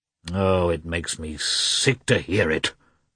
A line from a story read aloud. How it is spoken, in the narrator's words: muttered the prince gloomily